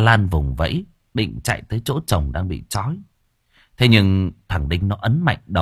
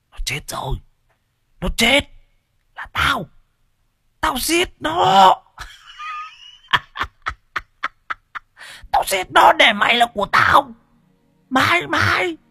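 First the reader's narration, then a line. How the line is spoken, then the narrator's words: Hissing. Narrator (Vietnamese): rít lên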